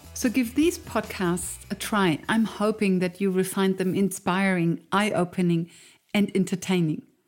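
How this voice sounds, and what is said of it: Thick foreign accent. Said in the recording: “my thick accent”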